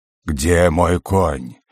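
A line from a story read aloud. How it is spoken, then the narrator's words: Growl. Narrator (Russian): зарычал Вухджаас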